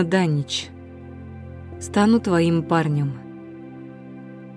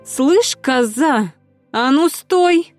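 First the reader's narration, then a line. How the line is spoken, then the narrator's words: Nasty shrill voice. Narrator (Russian): Противный, визгливый голос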